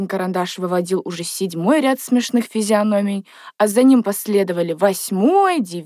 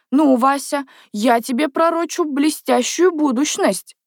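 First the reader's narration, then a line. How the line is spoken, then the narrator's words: Exclaiming. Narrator (Russian): воскликнул он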